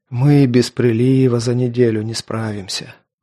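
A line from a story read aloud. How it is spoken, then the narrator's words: Sighing. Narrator (Russian): вздохнул Туча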